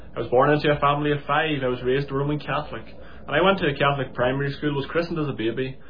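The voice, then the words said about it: Northern Irish accent. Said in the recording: “I'm sure you can tell from the accent that I'm not a Scouser, and I was born and raised in County Armagh in Northern Ireland”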